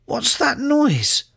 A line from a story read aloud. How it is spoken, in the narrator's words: squeaked